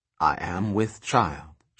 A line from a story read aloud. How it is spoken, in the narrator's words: she said, quietly, aloud